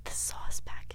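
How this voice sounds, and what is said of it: Whispering. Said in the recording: “Why would you whisper?”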